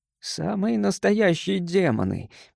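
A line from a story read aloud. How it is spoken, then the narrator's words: Muttering. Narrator (Russian): пробормотал Гарсия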